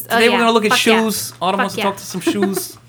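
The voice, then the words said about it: Imitates a comedy character's accent. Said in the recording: “Your accent's what ruined it ... My Linda Richmond is not good enough for you?”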